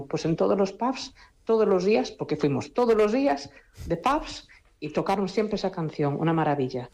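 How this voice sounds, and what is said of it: Galician Spanish accent. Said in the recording (Spanish): “con ese precioso acento gallego”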